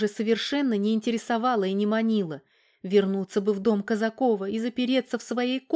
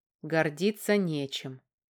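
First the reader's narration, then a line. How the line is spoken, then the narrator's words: Quiet wry chuckle. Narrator (Russian): тихо усмехнулся Федор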